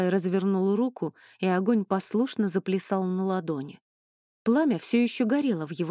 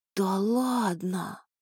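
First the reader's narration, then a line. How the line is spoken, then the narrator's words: Drawled with eager interest. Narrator (Russian): протянул Ронни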